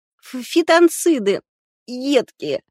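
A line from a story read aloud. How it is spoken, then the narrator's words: Sobbing. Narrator (Russian): Катя всхлипнула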